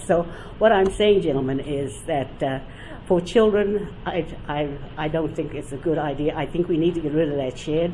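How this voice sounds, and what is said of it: New Zealand accent. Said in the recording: “as you noted from my accent, I had a beautiful Boston accent for 5 years. I stayed in New York, went home to New Zealand, and now I have my accent back.”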